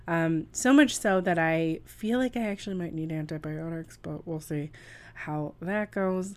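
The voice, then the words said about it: Raspy, husky voice. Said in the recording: “I'm raspy... I am still dealing with throat issues... my raspy, Sophia Bush-ish, I wish, voice”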